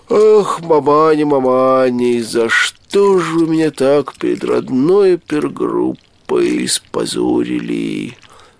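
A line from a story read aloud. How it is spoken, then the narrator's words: Muttering through teeth. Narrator (Russian): Сквозь зубы бормотал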